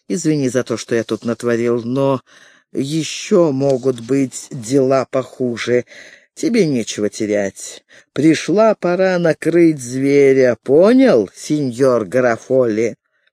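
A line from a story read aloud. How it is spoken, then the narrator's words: Hissing. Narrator (Russian): Последние слова он прошипел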